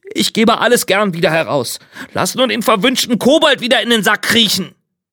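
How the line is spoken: Meek, subdued innkeeper's cry. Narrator (German): rief der Wirt ganz kleinlaut

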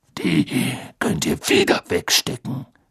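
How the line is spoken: Growled. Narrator (German): knurrte er

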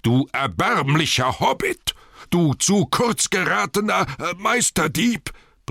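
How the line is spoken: Furious roar. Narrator (German): brüllte er, weil ihm gerade kein passenderes Wort einfiel

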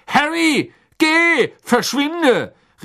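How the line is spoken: Called out. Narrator (German): rief Mr

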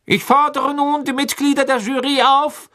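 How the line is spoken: Calling out. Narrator (German): rief Mr

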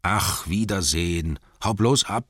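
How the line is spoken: Annoyed, secretly anxious growl. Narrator (German): knurrten die Zwerge, die sich umso mehr ärgerten, weil es sie in Wirklichkeit davor graute, ohne ihn auskommen zu müssen

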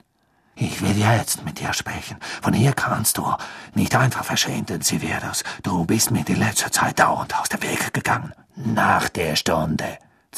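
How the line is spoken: Hissing. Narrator (German): zischte Snape

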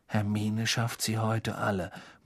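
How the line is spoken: Awed murmur. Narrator (German): murmelte Ron mit ehrfurchtsvoller Miene Harry zu

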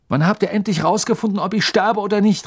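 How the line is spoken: Surprised outburst. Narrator (German): rief Harry sogar zu seiner eigenen Überraschung

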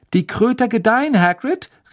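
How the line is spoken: Called out. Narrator (German): rief Harry

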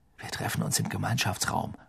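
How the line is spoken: Murmured. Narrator (German): murmelte

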